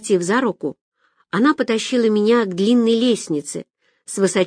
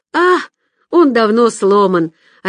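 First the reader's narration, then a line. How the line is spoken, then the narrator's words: Cheerful young woman. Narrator (Russian): радостно сообщила девушка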